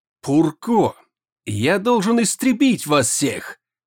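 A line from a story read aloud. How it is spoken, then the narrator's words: Enraged growl. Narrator (Russian): зарычал пилот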